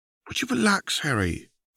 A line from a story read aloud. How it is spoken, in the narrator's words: She said in a soft voice